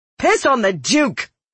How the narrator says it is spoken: I shouted

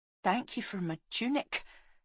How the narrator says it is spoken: she whispered

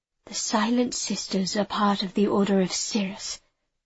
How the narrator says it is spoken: she said in a low voice

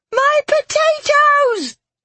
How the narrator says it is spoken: Marrow screamed

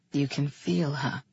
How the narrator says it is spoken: breathed

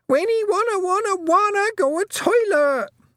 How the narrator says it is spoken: Wentworth shrieked

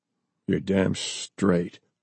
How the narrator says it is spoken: Forrest muttered

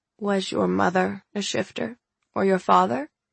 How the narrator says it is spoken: Gran asked gently

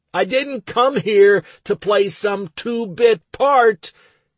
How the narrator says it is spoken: I yelled up into the sky

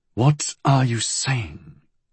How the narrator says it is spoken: he said slowly

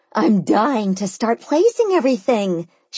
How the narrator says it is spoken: she exclaimed

